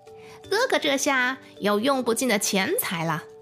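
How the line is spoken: Exclaiming. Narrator (Chinese): 二弟叫了起来

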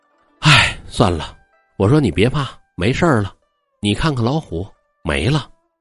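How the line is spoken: Heavy sigh. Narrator (Chinese): 红妆长叹一声

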